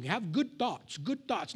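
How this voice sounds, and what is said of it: Put-on accent. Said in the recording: “Do you like my little accent there?”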